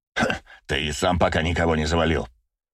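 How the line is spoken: Snorted. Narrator (Russian): фыркнул Браво

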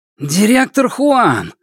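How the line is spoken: Exclaiming in unison. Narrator (Russian): в один голос воскликнули вышибалы

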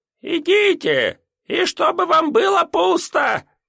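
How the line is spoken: Squeaky voice. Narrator (Russian): напутствовал нас мистер Алдабранд уже не столь пронзительным голосом, как когда Элзевир выбросил камень, а просто пискляво

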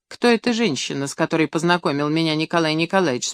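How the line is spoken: Plain question. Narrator (Russian): спросила Милочка

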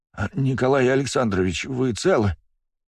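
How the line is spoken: Trembling voice. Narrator (Russian): дрожащим голосом произнес он

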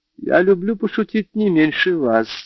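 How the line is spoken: Laughing. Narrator (Russian): засмеялась она

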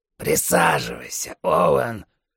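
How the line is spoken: Strange hoarse wheeze. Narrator (Russian): странно прохрипел Хафман

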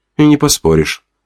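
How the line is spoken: Woman sighing. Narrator (Russian): вздохнула блондинка

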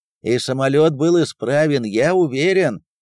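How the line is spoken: Flight engineer's distant shout. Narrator (Russian): крикнул издалека бортмеханик

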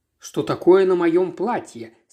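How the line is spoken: Plain. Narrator (Russian): сказала я

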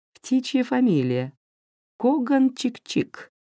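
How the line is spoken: Playful giggling. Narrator (Russian): хихикала она, весело дурачась

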